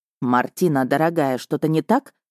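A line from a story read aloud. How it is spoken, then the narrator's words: Plain. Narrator (Russian): спросил Миха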